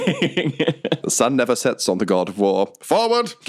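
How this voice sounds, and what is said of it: Put-on imperial British accent. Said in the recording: “if we're doing the Imperial British thing ... use the accent of the God of War”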